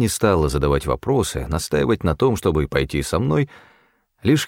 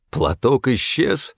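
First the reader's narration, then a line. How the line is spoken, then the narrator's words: Almost plaintive. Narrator (Russian): голос Стефана звучал почти что жалобно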